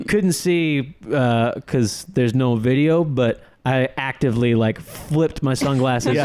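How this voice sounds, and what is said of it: Usual voice. Nothing is said of it.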